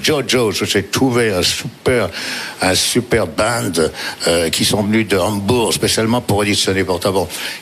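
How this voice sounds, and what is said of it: Imitated American accent in French. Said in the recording (French): “parce qu'il est américain. je fais avec son accent”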